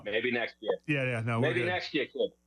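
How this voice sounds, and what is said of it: Put-on Boston accent. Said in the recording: “I'll do my best Boston accent for you”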